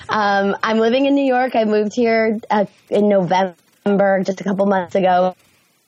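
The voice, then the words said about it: Very raspy hoarse voice. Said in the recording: “I think I might have laryngitis ... I mean, it's always raspy, but this is extreme.”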